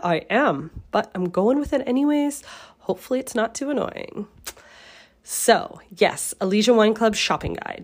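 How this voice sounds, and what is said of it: Congested, sick-sounding voice. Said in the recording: “I'm sick... I sound a little congested”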